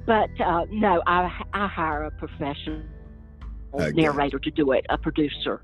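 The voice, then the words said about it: Strong Southern American accent. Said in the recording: “I'm deeply Southern here. ... my Southern accent.”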